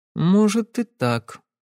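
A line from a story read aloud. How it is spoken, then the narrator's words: Uncertain agreement. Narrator (Russian): согласилась Кэсси, но неуверенно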